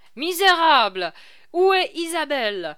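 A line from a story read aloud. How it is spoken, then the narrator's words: Alarmed shout. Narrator (French): cria Cigognac en voyant que la jeune comédienne n'était pas là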